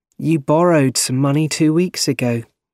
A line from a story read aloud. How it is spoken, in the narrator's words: she said kindly